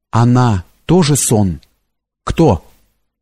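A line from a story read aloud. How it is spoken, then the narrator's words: Trembling question. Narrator (Russian): спросил дрогнувшим голосом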